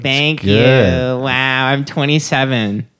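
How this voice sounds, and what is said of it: Imitates a young woman's voice. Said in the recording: “This is my impression of a girl when you wish her a happy birthday.”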